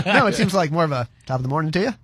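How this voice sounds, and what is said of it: Put-on Irish accent. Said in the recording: “your Irish impersonation”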